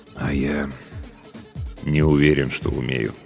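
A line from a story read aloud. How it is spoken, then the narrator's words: Quiet speech. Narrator (Russian): тихо продолжил капитан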